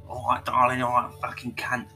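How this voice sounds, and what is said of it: Put-on London accent. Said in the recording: “one of these horrible like London accents”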